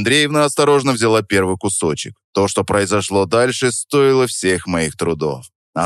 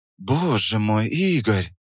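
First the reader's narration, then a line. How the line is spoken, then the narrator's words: Breathed out. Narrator (Russian): выдохнула Наталья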